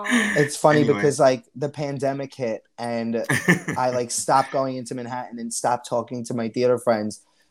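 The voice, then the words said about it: Staten Island New York accent. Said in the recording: “I love your accent. It's so cute. ... Very, very Staten Island.”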